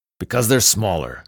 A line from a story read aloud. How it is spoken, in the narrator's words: Michael answered irritably